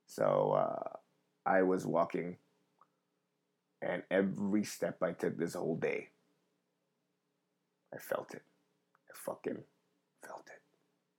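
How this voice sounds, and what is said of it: Deep raspy late-night voice. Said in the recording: “My voice is getting into like, not even like, what do you call it? Nighttime R&B DJ voice. ... I have more of a, I smoked a lot of cigarettes today voice”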